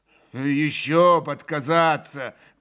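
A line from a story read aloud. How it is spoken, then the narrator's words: Deep, embarrassed yet jaunty voice. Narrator (Russian): пробасил Ракитин, видимо, сконфузившись, но молодцевато прикрывая стыд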